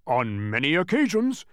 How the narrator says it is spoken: barked Tok, jumping eagerly to his feet

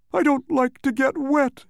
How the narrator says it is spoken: moaned the unhappy bug, and he shuddered at the thought

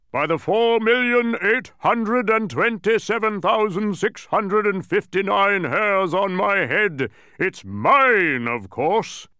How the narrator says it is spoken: bellowed a voice from across the cavern

